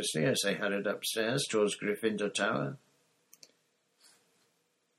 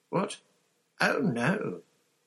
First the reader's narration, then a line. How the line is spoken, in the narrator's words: Hermione squeaked